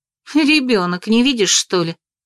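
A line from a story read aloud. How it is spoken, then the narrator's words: Mildly irritated joke. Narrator (Russian): пошутила я слегка раздраженно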